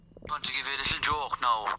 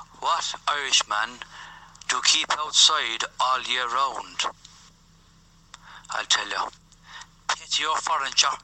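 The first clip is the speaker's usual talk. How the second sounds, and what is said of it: Put-on Irish accent. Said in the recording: “he's just doing an Irish accent”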